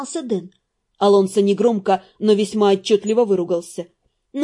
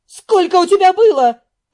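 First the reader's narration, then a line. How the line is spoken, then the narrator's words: Sharp bark. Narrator (Russian): рявкнула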